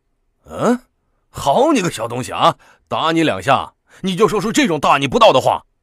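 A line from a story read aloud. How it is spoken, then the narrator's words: Father, angry. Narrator (Chinese): 父亲唐崇进继而怒道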